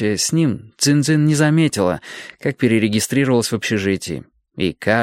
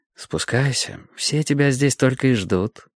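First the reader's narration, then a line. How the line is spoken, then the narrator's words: Tender. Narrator (Russian): нежно сказав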